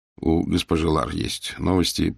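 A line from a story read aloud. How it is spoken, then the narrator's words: Muttered. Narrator (Russian): пробормотал я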